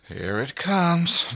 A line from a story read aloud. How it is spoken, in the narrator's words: John muttered